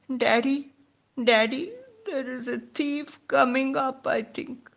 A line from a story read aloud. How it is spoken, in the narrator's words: Somehow I mustered courage and feebly called